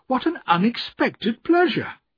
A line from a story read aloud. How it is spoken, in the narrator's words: I cried